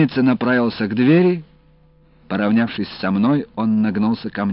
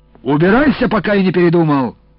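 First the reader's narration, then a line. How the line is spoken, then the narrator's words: Yelling. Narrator (Russian): заорал дежурный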